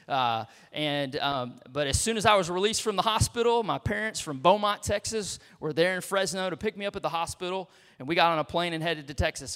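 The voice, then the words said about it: Texan accent. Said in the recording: “I've been in Texas most of my life, got the accent, and I'm a Texan”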